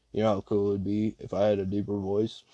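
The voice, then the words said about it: Bad put-on deep voice. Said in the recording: “That was such a bad deep voice.”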